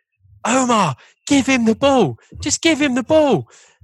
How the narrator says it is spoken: Lee Bowyer's voice screaming, Lee Bowyer starts screaming

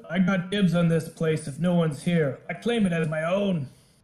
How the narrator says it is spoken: Maiden yells out

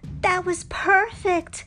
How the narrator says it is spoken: Nakoma yelled

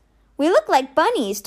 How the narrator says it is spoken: Ty exclaimed

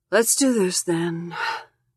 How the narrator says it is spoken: she says, sighing

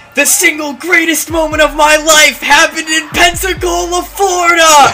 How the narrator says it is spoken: am amped and I shout out to the audience

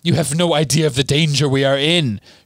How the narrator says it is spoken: shrieked Bellatrix

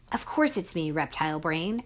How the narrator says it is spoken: I snapped

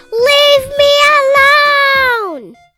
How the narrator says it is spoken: she shouted back

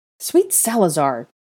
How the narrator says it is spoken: Draco exclaimed

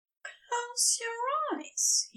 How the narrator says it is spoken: whispered

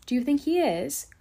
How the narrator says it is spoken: cried Mary eagerly

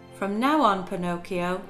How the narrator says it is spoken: said the fairy

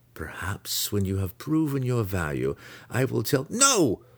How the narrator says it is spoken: Alton cried

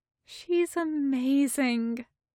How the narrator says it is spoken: Haruta sighs

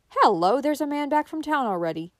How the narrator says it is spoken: suddenly exclaimed Anne a few minutes later

